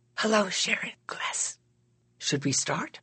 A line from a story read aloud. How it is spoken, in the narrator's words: She whispered